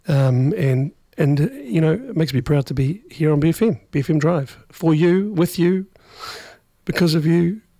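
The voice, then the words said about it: Strained, worn-out voice. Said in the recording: “my stupid voice, but it seems to have survived ... I've eaten approximately 12 vocal zones”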